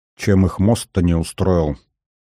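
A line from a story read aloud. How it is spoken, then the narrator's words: Confused grumbling. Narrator (Russian): проворчал не разобравшийся в ситуации Дубровский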